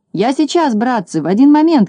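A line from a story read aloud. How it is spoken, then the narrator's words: Shouted. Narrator (Russian): крикнул Скуперфильд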